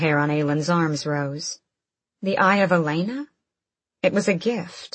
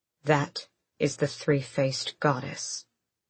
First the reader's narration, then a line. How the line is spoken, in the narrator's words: Manon said, her voice low